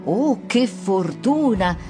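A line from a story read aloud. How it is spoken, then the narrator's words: Plain. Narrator (Italian): disse la madre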